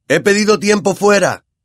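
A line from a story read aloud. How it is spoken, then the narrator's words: Shouting to players. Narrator (Spanish): gritó a sus jugadores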